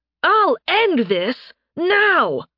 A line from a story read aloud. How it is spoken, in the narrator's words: Phaeus shouted